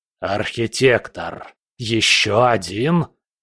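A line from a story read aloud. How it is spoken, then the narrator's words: Angry, fearful hiss. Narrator (Russian): прошипел Хаосит, и в его голосе слышался не только гнев, но и страх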